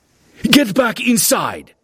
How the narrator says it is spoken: a guard shouted

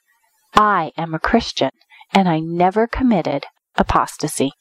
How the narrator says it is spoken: calmly and quietly told the judge

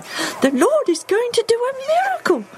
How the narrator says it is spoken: she squeals

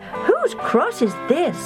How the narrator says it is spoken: Jill cried

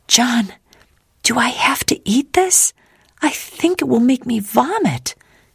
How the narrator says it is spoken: whispered

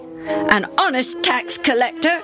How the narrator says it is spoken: Benny flashed back just as hotly

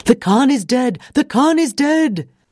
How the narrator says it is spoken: From inside the tent, Mildred heard a man's voice yelling

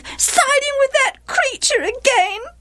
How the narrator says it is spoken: wailed Gilead's wife

